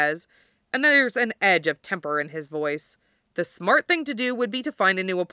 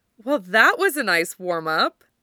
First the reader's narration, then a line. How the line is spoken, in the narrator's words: Mito says happily